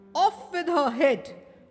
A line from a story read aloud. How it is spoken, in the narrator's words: shouted the Queen